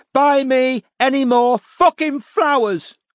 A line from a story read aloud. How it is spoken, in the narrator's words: bellowed Robin from behind him